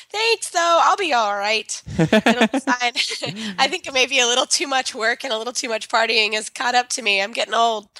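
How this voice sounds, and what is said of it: Sick, poor-sounding voice. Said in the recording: “I'm sorry that you're sick... My voice is not so good.”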